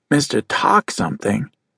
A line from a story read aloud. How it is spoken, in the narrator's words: Judd murmured